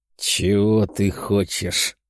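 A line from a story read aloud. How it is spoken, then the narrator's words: Leader's growl through teeth. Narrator (Russian): сквозь зубы прорычал вожак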